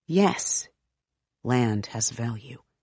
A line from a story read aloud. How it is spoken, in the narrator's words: he murmurs to himself, distracted